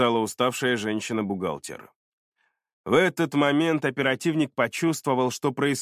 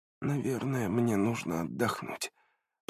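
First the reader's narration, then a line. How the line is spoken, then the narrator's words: Mumbling. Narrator (Russian): пробормотала Наташа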